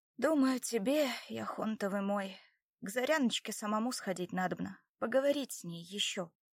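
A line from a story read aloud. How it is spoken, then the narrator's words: Sighing reply. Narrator (Russian): вздохнув, ответила Добронрава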